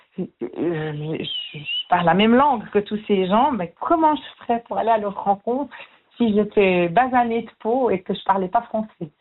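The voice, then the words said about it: Swiss French Jura accent. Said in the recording (French): “je parle français avec un accent du Jura”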